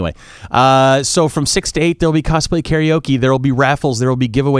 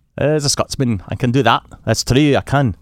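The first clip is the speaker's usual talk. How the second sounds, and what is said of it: Put-on Scottish accent. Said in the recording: “pretend to be a Scotsman ... That's the worst accent ever. Anyway, it's not a bad accent. It's my version of it's the worst accent ever”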